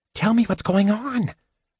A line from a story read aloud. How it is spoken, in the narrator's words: Tasselhoff whispered